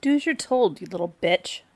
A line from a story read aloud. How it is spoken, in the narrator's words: Jenna snapped